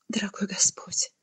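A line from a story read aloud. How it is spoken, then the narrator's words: Whispered. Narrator (Russian): прошептала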